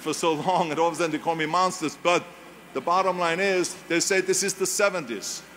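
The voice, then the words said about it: German accent. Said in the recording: “my accent ... you give me the creeps with your accent, with that German accent.”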